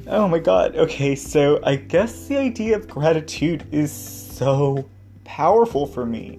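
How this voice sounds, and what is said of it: Emotional, close to tears. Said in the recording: “Oh my God, I'm already getting emotional. ... I told myself I wasn't gonna cry until later.”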